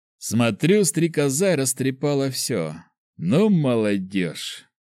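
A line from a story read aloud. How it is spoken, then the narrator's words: Sighing. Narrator (Russian): вздохнул Макар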